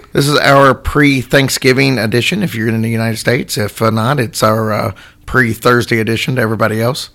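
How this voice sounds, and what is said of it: Voice not fully recovered, strained. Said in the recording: “my voice is still not 100% back ... Your voice is really annoying ... After 3 weeks, it's really old.”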